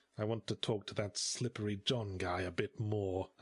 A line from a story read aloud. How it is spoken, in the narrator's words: I hissed